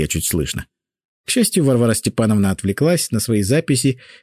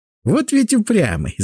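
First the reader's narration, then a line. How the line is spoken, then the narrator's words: Laughing. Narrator (Russian): засмеялась Синявская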